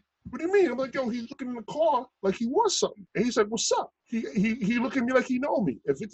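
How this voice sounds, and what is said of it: Usual voice. Nothing is said of it.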